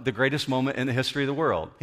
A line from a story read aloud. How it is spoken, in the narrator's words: I said, it wasn't flippantly, I just said it very quickly